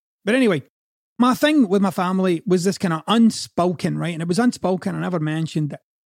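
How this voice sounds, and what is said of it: Scottish accent. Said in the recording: “It's very hard for me to say Scotland with a Scottish accent ... I can't say it like the way an American would say it”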